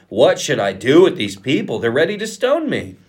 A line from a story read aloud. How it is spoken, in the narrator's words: Moses cried out to the Lord